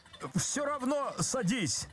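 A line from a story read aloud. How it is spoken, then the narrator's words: Desperate shout. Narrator (Russian): закричал Козлевич отчаянно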